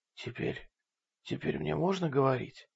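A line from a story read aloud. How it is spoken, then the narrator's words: Hoarse question. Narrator (Russian): хрипло спросила Карен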